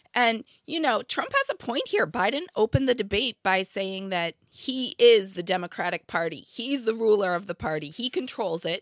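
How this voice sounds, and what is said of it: Hoarse, raspy sore-throat voice. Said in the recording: “special co host Katharine Hepburn has joined us... I have a sore throat... it's a little bit Marge Simpson, a little bit Katharine Hepburn... wet hacking cough”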